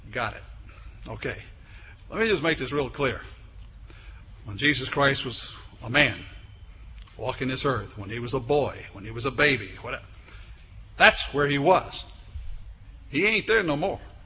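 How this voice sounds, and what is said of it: Put-on Cajun accent. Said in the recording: “the old Cajun accent”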